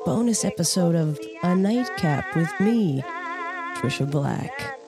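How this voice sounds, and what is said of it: Exaggerated radio announcer voice. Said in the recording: “I wanted just to do that in like a real radio voice”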